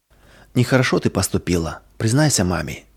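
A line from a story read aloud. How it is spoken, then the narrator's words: Quiet inner voice. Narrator (Russian): тогда совесть тихо говорила ей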